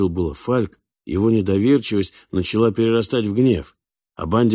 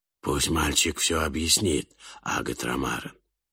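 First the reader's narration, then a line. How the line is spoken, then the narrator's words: Whispered. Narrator (Russian): прошептал он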